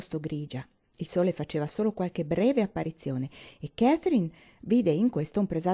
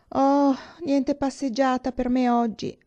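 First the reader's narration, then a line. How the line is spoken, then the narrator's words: Sighed. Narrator (Italian): sospirò Catherine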